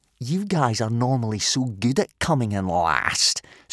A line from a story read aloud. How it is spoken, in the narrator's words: sneered Snotlout